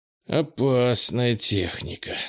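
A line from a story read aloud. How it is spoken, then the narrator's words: Slightly envious grumble. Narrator (Russian): с легкой завистью проворчал Кенни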